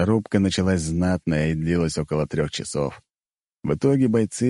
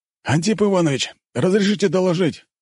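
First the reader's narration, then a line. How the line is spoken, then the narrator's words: Shouting. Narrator (Russian): выкрикнул один из воронов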